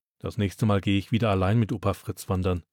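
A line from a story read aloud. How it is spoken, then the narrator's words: Muttered. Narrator (German): murmelt Florian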